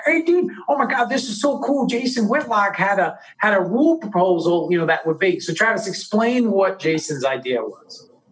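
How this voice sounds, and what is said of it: Excited stereotypical white guy voice. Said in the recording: “in his Travis voice. ... I do the white guy.”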